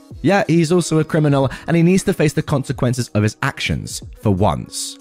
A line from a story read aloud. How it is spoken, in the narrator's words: I replied